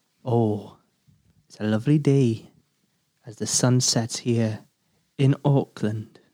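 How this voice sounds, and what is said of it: Put-on Welsh accent. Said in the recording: “I'll do it in a Welsh accent again.”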